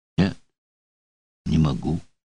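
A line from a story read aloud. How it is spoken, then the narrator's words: Mumble. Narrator (Russian): промямлил Дутр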